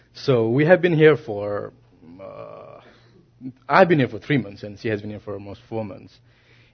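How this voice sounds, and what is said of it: Nepali accent. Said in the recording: “I'm Nepali, as you know, my accent is kind of different. And you might not understand sometimes.”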